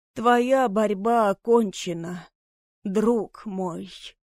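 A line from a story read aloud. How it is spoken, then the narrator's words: Trembling sigh. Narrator (Russian): Дрожащим голосом вздохнул Отис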